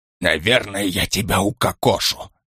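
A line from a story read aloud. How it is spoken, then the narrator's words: Whisper. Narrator (Russian): прошептал Штих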